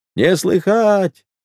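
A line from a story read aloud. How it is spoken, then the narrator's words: Loud singsong answer. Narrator (Russian): ответил громко и нараспев Пантелей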